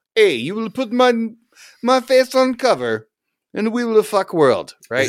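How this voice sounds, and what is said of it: Put-on Russian accent. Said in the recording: “Russian ... Just going with the one accent that I had in my head at the moment”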